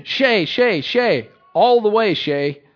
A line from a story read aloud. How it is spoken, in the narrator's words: All were screaming